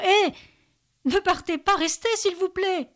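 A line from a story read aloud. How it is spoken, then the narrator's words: Panicked, near-demented scream. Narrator (French): Benjamin hurle de panique, quasi dément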